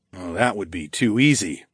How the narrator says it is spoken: I muttered

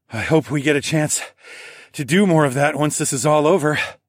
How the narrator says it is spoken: I panted

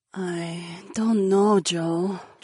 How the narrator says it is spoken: Jessamine said in a hesitant voice

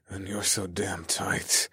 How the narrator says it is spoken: I growled

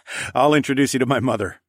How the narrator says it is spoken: I laughed

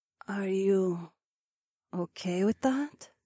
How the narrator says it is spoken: Zoe asked a little hesitantly

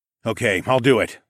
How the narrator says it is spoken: I grunted

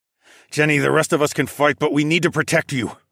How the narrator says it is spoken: I grunted

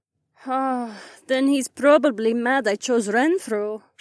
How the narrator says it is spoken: she sighed

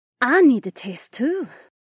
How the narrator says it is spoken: Imarla purred

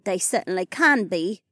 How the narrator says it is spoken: Anastasia chuckled

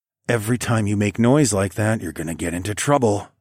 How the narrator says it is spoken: growled

